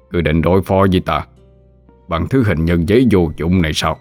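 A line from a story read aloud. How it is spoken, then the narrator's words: Old man, laughing loudly. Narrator (Vietnamese): Lão bật cười lớn rồi hỏi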